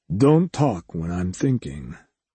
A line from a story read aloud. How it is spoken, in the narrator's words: Vector said quietly